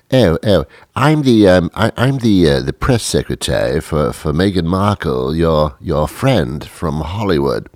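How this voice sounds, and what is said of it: British accent. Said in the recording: “the person on the other end had a British accent.”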